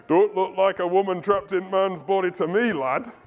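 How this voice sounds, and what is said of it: Put-on Yorkshire-ish accent. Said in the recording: “it's not really a Birmingham accent, was it? It was more a Yorkshire accent, really. It wasn't really a Yorkshire.”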